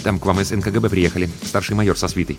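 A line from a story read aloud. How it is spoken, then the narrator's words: Hurried, quiet. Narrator (Russian): звукорежиссер Тимарцев торопливо, негромко сообщил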